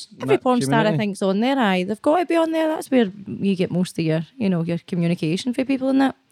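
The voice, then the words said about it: Scottish accent. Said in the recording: “this accent, honestly, this accent. ... I just cringe when I hear it on camera. ... People love the Scottish accent.”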